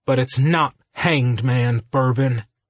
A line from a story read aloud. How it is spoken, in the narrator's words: Ryder growled